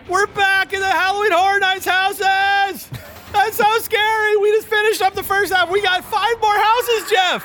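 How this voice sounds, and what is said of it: Yelling loudly. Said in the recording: “I don't know why we're yelling already.”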